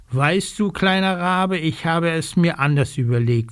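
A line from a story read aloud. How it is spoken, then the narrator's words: Plain. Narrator (German): sagt sie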